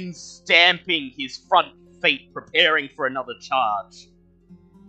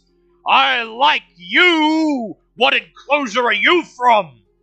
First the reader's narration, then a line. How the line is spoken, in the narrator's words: The rhino shouts